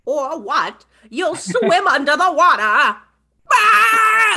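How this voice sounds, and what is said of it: Cartoon villain voice, like old lady. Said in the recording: “you're so good at this impression... He sounds like an old lady a little bit.”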